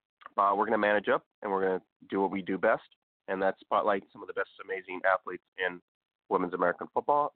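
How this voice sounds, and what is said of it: Sick, flu-affected voice. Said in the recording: “we're under the weather this week. Just a little bit of flu for me, so it's probably why my voice sounds a little awkward.”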